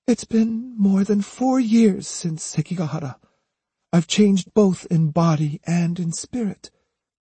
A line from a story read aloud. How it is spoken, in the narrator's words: she said wistfully